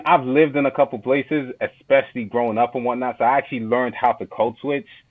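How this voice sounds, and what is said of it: New York-sounding accent. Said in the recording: “where do they think you're from? New York, right?”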